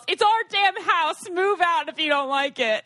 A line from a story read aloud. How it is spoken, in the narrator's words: my mom yells